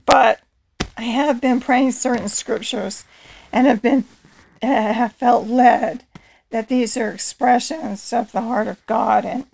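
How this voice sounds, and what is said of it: Allergy-affected congested voice. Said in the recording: “Please forgive my voice, I'm struggling with allergies.”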